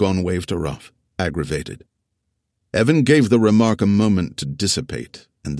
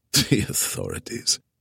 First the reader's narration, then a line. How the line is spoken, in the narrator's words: Aragorn snorted